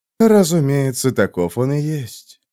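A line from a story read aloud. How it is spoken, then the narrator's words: Whisper inside one's head. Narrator (Russian): прошептал голос Лайгора в голове Килмайна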